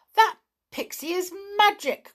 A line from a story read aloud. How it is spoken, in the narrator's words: cried the gnome in fright